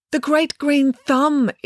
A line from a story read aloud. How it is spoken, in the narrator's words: exclaimed the mayor